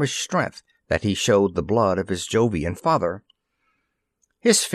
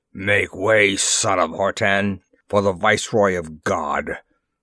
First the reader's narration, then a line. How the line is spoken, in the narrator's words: he rumbled in his deep-toned voice